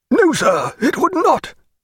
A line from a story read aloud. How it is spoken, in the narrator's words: cried Admiral Parr, his port wine face flushing purple